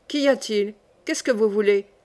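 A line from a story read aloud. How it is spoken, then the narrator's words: Hoarse question. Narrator (French): me demanda-t-il d'une voix éraillée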